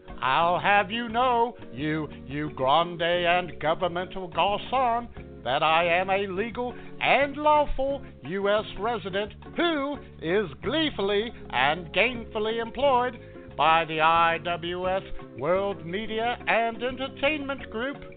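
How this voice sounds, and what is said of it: Funny foreign accent. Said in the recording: “you foreign weirdo. You got a funny accent.”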